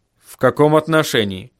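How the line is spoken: Wary question. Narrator (Russian): спросил он настороженным голосом

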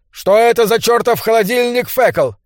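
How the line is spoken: Shouting over loud roar. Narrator (Russian): Пытаясь перекрыть доносившийся с улицы рев, Бурхард крикнул

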